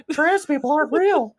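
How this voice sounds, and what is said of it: Stiff Kermit-the-Frog-like impression. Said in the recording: “my Jordan Peterson is not. It didn't sound anything like him ... some stiffly ass Kermit the Frog”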